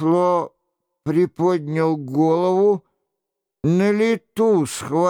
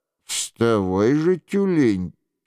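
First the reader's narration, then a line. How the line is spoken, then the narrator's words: Quiet voice. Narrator (Russian): тихим голосом произнес Шико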